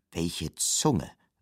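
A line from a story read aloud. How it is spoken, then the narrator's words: Sighing teeth. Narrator (German): seufzten ... die Zähne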